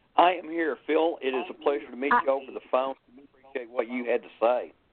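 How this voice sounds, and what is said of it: Texas accent, not South Texas. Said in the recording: “you can tell by my accent I'm not from South Texas like KC”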